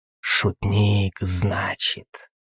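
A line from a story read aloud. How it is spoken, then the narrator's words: Hissed. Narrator (Russian): прошипел в ответ Курули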